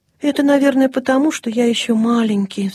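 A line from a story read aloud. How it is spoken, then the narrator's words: Young lion cub sighing. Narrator (Russian): вздохнул львенок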